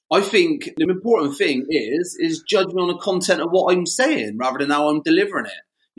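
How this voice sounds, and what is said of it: Bristolian accent, heavy R's. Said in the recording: “That Bristolian accent, I'm proud of that ... I like to lean quite heavily into my R's”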